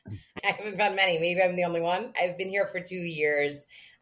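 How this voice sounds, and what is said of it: New York accent. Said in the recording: “do I hear a New York accent? ... Yes, I do have a New York accent.”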